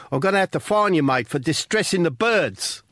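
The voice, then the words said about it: Put-on South African accent. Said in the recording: “this voice, South African ... I'm sorry about the accent.”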